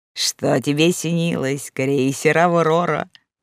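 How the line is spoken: Nasal twang. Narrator (Russian): прогнусавил Корнейчук

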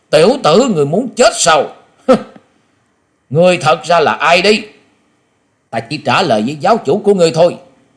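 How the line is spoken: Sudden shout. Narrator (Vietnamese): Quả Dân Tôn giả chợt quát lên

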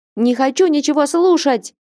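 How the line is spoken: Teenager shouting. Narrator (Russian): закричал подросток

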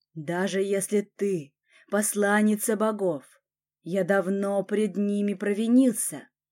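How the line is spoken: Hissed. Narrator (Russian): прошипел он

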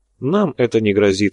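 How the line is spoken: Calm. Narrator (Russian): спокойно отреагировал подпольщик

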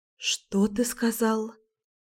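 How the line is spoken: Very quiet question. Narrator (Russian): спросила я совсем тихо

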